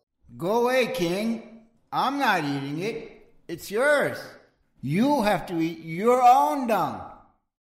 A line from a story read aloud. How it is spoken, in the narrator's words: From inside, the hermit yelled